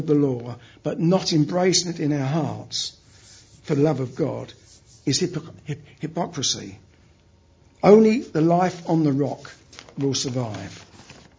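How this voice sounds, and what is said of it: Cockney accent. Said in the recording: “My real Cockney accent comes out when I'm under stress. You may think it's bad now”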